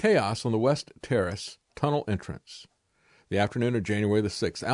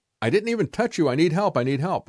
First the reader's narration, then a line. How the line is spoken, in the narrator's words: a man shouted